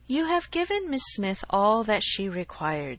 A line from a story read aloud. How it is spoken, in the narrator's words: said he